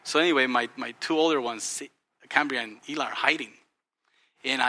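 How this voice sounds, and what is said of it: Usual voice. Nothing is said of it.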